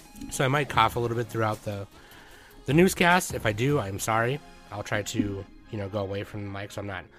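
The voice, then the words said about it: Hoarse voice from illness. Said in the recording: “I got sick... My voice even now is still kind of hoarse.”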